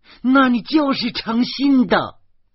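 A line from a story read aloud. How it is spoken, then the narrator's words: Shrill shout. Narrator (Chinese): 严明尖声的叫起来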